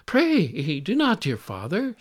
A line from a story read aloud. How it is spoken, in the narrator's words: cried